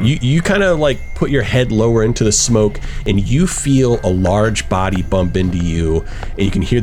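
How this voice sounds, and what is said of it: Usual voice. Nothing is said of it.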